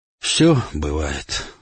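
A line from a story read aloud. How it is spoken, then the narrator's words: Sighing old man. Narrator (Russian): вздохнул старый грек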